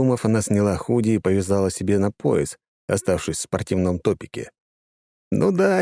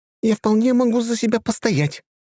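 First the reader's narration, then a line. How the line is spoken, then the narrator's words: Exclamation. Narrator (Russian): воскликнула она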